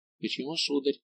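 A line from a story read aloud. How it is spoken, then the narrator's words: Gentle question. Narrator (Russian): мягко спросил Манекан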